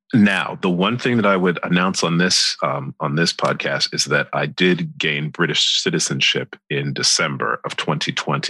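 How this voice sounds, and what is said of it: American accent. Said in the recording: “I know you have an American accent”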